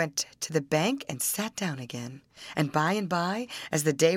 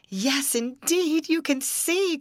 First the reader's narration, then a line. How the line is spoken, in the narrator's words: cried the princess